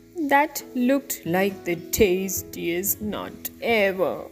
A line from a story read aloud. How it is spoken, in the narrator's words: groaned Pecan and Hickory